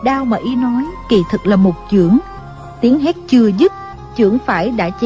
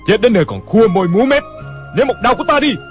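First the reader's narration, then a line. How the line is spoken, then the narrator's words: Impatient shout. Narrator (Vietnamese): Cảnh Thiên Bá không nhịn được, hét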